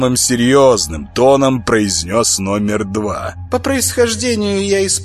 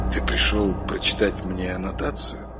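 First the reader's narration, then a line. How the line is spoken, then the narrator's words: Icy question. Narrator (Russian): ледяным голосом спросил Саша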